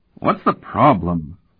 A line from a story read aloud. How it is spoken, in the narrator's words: the blonde Pandion asked, sitting up and rubbing sleepily at his eyes